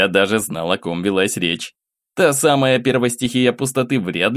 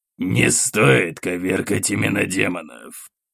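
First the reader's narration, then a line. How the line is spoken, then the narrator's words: Growled. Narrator (Russian): прорычал Каратхан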